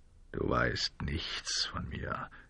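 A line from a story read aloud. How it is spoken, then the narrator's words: Quiet. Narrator (German): sagte der Revolvermann leise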